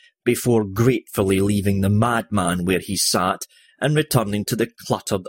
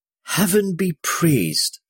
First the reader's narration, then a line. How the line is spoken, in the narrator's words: the woman breathed